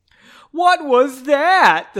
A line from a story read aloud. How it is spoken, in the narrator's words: the soldier cried